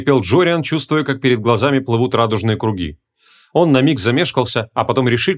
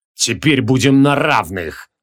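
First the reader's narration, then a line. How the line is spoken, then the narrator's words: Roaring. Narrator (Russian): взревел он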